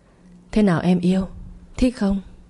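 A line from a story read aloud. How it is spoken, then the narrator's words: Sweet intimate murmur. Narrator (Vietnamese): thủ thỉ những lời như ngọt mật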